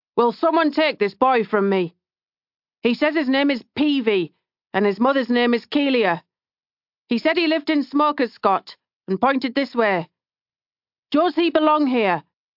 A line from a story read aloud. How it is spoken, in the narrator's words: He finally shouted